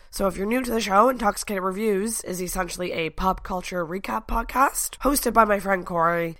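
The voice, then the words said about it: Hoarse, fading voice. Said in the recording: “I'm slowly but surely losing my voice”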